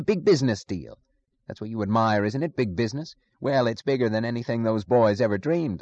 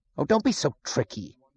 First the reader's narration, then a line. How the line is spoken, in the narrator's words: he snapped